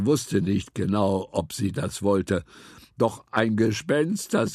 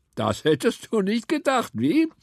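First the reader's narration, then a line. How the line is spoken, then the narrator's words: Laughing. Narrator (German): lachte Dr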